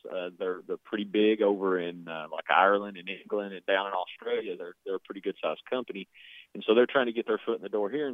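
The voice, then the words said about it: Strong regional accent. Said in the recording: “Your accent, I couldn't quite hear it.”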